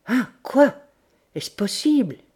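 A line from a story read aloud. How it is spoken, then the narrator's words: Stammered. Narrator (French): bégaya-t-il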